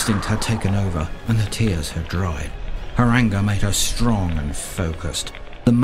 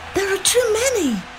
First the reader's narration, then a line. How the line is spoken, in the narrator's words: Fianna cried